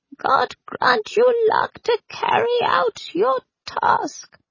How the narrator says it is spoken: the tiniest and most wizened priest added in a wheeze

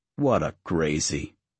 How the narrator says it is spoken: Abuelo said

